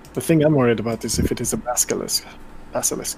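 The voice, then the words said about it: Put-on accent. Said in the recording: “That is hard to say in this accent.”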